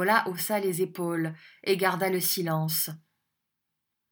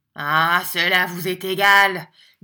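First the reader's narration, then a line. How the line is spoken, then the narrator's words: Menacing tone. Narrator (French): dit Squeers d'un ton menaçant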